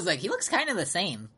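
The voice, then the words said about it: Imitates another person's voice. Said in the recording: “bad Kim impression. I don't know why I did that voice.”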